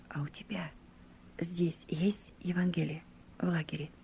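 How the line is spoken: Quiet, insinuating question. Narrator (Russian): он тихо и вкрадчиво спросил у меня

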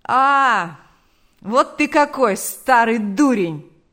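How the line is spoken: Delighted exclamation. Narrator (Russian): воскликнул Арефьев, обрадовавшись

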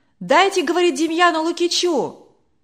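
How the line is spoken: Shouting from crowd. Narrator (Russian): кричали из других рядов

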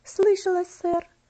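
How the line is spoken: Girl's quiet trembling voice. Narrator (Russian): ответила девочка тихим, дрожащим голосом

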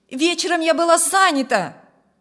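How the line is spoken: Woman calling after. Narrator (Russian): крикнула женщина вдогонку

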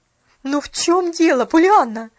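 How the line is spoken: Desperate exclamation. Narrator (Russian): в отчаянии воскликнула миссис Керри

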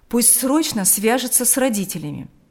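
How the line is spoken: Stern father. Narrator (Russian): строго сказал отец

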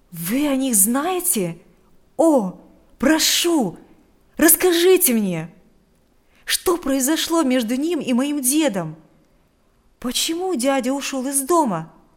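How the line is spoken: Eager exclamation. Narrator (Russian): воскликнул Адам с нетерпением

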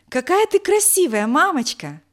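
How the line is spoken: Child exclaiming. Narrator (Russian): воскликнул Алёша

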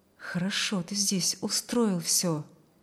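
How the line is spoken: Low voice. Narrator (Russian): проговорил он вполголоса

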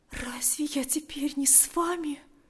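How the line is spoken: Whisper. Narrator (Russian): прошептала она

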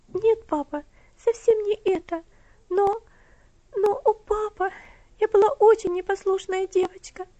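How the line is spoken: Sobbing girl's exclamation. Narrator (Russian): воскликнула она и опять залилась слезами, горько рыдая

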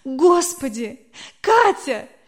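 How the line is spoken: Holding back sobs. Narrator (Russian): Еле сдерживая рыдания

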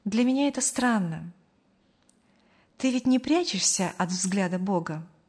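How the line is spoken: Thoughtful. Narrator (Russian): задумчиво проговорила

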